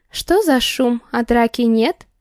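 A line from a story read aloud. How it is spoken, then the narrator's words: Cheerful tone. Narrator (Russian): Веселым тоном обозначила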